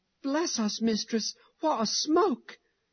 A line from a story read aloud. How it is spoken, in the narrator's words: Mary suddenly exclaimed